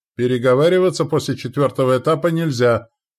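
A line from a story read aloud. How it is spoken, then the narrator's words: Shouted. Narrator (Russian): крикнул он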